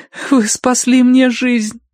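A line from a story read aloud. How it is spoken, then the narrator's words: Choked through sobs. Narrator (Russian): выдавила Киврин сквозь душившие ее рыдания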